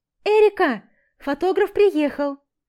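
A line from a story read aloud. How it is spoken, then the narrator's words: Cheerful shout. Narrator (Russian): весело кричит Лара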